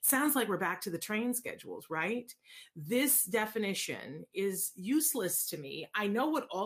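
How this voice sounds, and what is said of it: Usual voice. Nothing is said of it.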